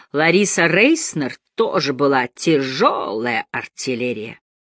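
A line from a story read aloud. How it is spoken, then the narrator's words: Hussar-style drawl. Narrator (Russian): Мандельштам однажды протянул по-гусарски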